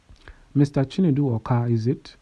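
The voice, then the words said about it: Hausa accent. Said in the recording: “Mr. Yusuf said in a Hausa accent.”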